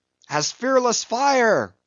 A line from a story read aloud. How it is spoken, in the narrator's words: cried Stubb